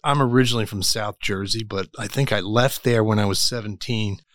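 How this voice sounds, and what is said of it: South Jersey American accent. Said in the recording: “that's not a Kansas accent ... Jersey guys never lose their accent”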